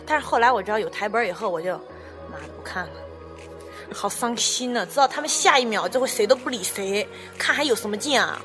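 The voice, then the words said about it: Slight southern Chinese accent. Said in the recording (Chinese): “你这个小南方口音”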